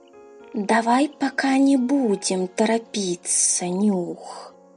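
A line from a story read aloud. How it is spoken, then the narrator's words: Hissing. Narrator (Russian): прошипел он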